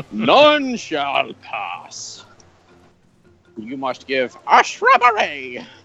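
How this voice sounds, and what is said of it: Bad Monty Python impression. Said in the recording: “worst Monty Python impression I've ever heard”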